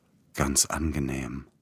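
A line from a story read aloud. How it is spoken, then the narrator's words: Smiling whisper. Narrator (German): flüsterte lächelnd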